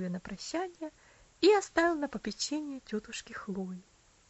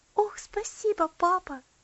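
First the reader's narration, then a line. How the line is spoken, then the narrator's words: Joyful. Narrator (Russian): радостно ответила Элси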